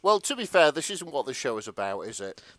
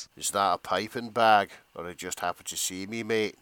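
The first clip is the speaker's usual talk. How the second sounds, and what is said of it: Put-on Scottish accent. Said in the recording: “you're gonna have to do this one in a Scottish accent this time.”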